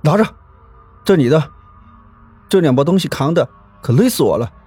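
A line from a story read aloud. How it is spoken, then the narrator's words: Panting, out of breath. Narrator (Chinese): 喘着粗气说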